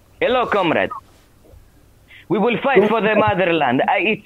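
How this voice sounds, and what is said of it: Imperfect put-on Russian accent. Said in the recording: “Russian accent ... I'm working on it. It's not the best.”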